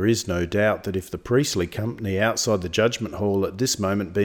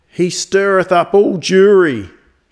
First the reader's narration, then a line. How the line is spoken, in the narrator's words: shouted the priest